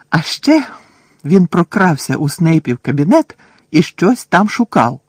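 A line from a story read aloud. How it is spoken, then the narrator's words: Triumphant exclamation. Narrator (Ukrainian): з тріумфом зиркнувши на Герміону, вигукнув Рон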